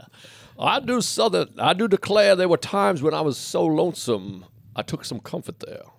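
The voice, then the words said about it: Put-on Southern belle accent. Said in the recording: “I think maybe I could do Southern ... Hey, that's good ... I did Paul Simon as a Southern bell”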